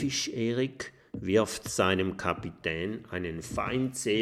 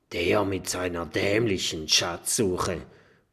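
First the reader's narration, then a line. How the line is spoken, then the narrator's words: Grumbled. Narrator (German): brummt Haifisch Erik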